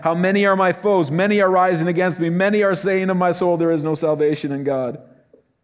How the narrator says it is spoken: David in Psalm 3 yelling

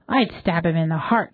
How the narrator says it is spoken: said Teresa

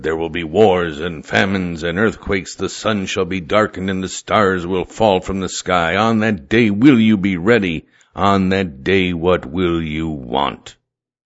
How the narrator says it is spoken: He roared

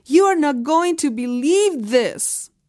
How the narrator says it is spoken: he was sobbing

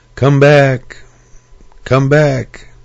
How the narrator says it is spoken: as loudly as possible, he would yell

